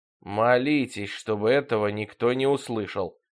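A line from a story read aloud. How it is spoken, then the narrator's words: Grumbling. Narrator (Russian): проворчала тетка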